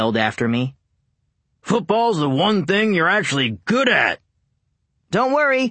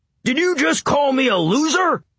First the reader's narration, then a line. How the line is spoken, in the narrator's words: Bear roared back